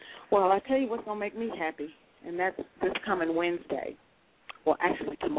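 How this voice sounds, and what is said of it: Usual voice. Nothing is said of it.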